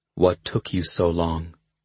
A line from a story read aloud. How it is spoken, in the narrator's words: He asked quietly